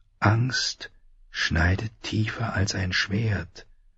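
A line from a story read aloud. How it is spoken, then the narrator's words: Quiet inner voice whispering. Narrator (German): flüsterte die leise Stimme in ihrem Inneren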